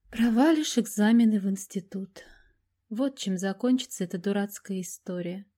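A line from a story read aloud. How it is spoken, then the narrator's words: Tired concluding tone. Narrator (Russian): устало заключила Мария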